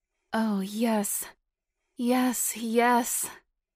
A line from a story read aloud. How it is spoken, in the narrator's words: Liz moaned loudly, lost in the pleasure and arousal that washed over her body